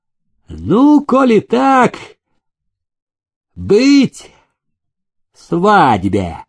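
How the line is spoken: Gleeful shout. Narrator (Russian): приплясывая, выкрикнул Прокофий

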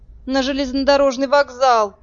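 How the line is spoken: Groaned. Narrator (Russian): простонал Фиш

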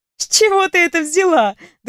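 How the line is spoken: Friendly laugh. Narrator (Russian): дружелюбно рассмеялась я

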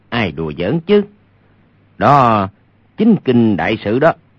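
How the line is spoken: Low laughing voice. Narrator (Vietnamese): Hoàng Nhan Khang hạ giọng cười nói

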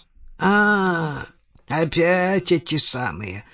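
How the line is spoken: Grumbling. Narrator (Russian): проворчал он

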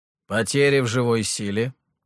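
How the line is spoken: Grim question. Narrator (Russian): мрачно спросил император

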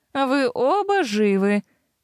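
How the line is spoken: Drawling. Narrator (Russian): протянула Киара

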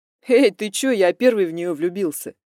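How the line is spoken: Laughing. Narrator (Russian): хохотнул Макс

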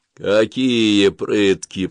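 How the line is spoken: Distrustful drawl. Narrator (Russian): протянул надзиратель, недоверчиво

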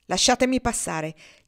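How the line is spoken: Harsh command. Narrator (Italian): gli ordinò con voce aspra

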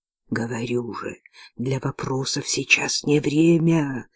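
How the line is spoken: Irritated hiss from darkness. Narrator (Russian): раздраженно прошипели из тьмы

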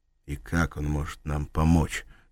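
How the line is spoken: Plain. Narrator (Russian): спросил он

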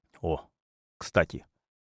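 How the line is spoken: Mutter. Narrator (Russian): пробормотал Равиль

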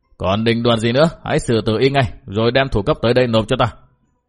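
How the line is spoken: Shouted order. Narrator (Vietnamese): Lưu Chính Ngạn liền quát bảo

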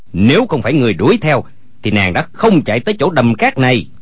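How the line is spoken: Angry. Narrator (Vietnamese): Quách Tĩnh tức giận nói

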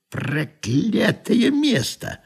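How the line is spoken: Grumbled through teeth. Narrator (Russian): проворчать сквозь зубы

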